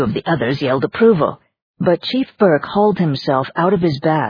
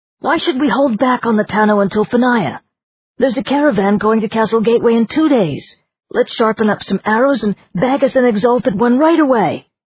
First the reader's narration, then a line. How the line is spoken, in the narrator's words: An excited young voice from among the crowd of villagers shouted